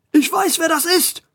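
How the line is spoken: Angry shout. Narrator (German): schrie Schrankwand 2 erzürnt

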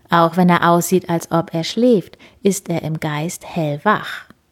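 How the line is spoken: Plain, man's voice. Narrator (German): sagt der Buddha-Mann

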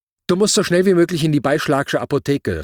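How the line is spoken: Calling out. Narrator (German): rief sie

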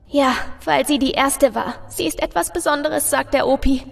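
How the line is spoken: Little girl quietly sobbing. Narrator (German): bringt das kleine Mädchen unter leisen Schluchzern hervor

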